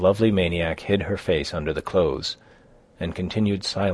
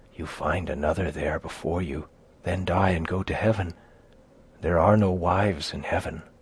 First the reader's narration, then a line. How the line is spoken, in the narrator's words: she added, whispering